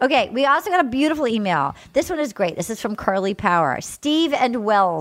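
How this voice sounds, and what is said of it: Usual voice. Nothing is said of it.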